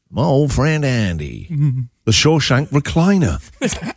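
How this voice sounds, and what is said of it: Imitates another person's voice, put-on accent. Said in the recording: “Gold for the accent.”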